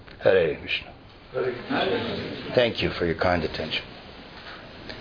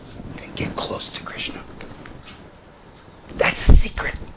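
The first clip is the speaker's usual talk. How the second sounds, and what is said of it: Whispering. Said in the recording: “That's why I'm whispering, because it's a secret.”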